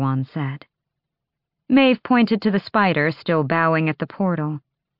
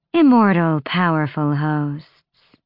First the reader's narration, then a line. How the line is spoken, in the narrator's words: Maeve purred